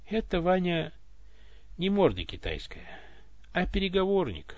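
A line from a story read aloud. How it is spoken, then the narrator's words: Tsar answering wearily. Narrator (Russian): устало ответил царь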